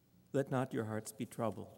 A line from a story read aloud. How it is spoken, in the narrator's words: Jesus said